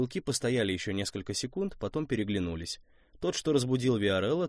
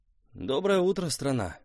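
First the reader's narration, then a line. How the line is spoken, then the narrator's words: Grumbling. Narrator (Russian): проворчал Костик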